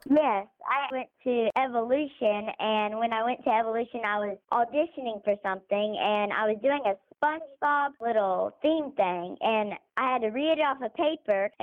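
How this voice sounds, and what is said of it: Slight North Carolina accent. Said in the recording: “you have like a little North Carolina accent”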